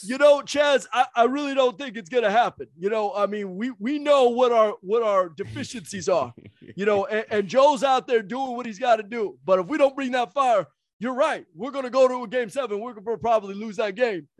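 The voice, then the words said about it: Imitates another person's voice. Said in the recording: “that Doc Rivers impression”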